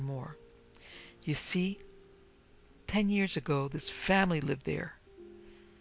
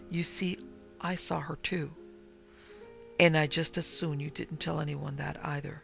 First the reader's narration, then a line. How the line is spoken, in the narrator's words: lowered his voice